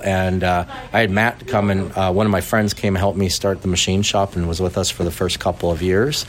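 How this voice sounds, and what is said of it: Canadian accent. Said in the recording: “I hear an accent coming through. Is that Canadian?”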